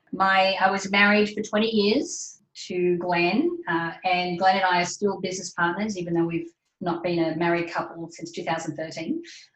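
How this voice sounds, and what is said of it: Australian accent. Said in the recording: “I'm obviously Australian. You can tell from my accent.”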